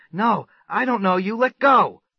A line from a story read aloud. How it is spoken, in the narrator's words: He writhed back, yelling